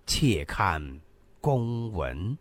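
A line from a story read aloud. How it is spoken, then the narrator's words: Slow, deliberate. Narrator (Chinese): 陆子婉缓缓吐出四个字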